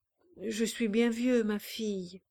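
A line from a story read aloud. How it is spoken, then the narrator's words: Murmuring. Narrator (French): murmura-t-il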